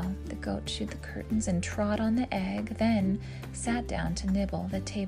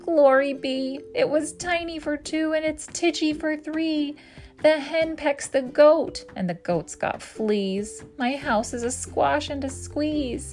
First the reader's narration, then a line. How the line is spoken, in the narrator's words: The little old lady cried